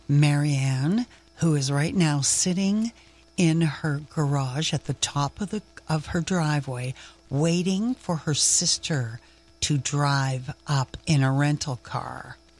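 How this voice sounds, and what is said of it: Lowered, quieter voice. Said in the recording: “I'll lower my voice”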